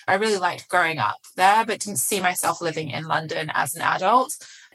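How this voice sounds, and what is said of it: Slightly muddled English accent. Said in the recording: “my accent already, it's slightly muddled now, but I assure you I did grow up in England”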